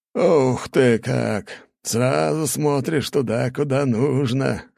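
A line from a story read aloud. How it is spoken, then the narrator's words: Amused snort. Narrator (Russian): хмыкнул Чертков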